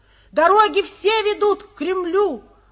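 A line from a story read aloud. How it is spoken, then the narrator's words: Sudden shout from hall. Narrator (Russian): вдруг кто-то крикнул в зале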